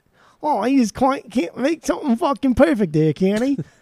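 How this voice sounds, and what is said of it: Poor put-on Cockney accent. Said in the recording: “That's my that's my uh, Cockney accent there... that was all Australia... That was that was, that was New Zealand mixing with like the yeah... That was the worst.”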